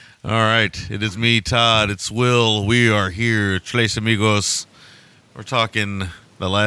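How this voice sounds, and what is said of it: Usual voice. Nothing is said of it.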